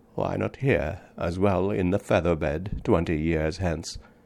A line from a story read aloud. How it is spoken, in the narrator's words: muttered